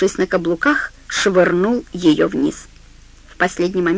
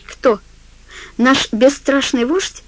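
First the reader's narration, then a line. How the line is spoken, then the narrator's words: Laughing. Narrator (Russian): Ллойд рассмеялся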